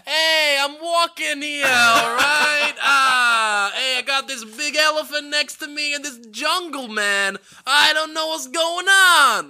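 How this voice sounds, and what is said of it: Put-on Brooklyn accent. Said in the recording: “Your Brooklyn accent is so much better than mine.”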